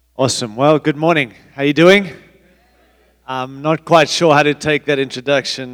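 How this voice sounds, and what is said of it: Mixed African-Australian accent. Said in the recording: “I'm sorry I have an accent. ... although I don't sound like you. I'm a mix, born in Africa, raised in Australia”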